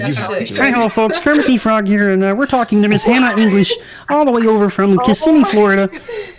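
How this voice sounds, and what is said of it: Kermit the Frog voice impression. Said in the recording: “I do a pretty good impression of Kermit the Frog”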